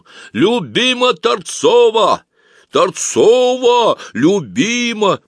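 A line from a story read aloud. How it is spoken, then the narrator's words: Sudden loud shout. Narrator (Russian): вдруг кто-то громко выкрикнул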